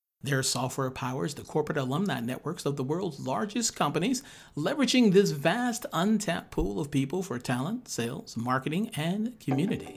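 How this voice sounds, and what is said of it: Radio announcer voice. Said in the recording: “That was in my radio voice. ... That was very good.”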